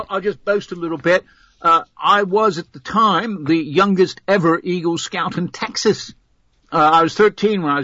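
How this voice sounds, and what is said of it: American with affected British-sounding accent. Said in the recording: “his affected accent, ... He's from the States, but has been living too long in the environs of the United Kingdom”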